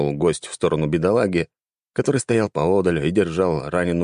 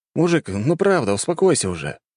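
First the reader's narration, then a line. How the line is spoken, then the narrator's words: Sighing. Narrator (Russian): вздохнул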